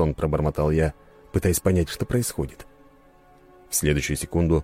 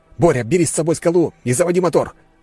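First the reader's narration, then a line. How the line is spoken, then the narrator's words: Barked into phone. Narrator (Russian): рявкнул в трубку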